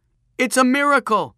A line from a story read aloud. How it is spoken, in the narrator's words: shouted Peter